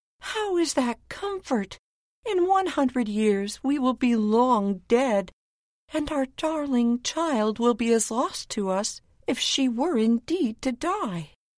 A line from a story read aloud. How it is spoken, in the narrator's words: cried the queen